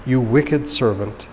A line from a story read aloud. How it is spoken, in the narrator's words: he said